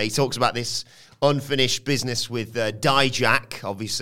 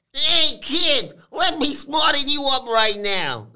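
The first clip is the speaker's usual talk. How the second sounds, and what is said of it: Weak impression of wrestler Stacks. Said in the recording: “I can't really do a very good impression.”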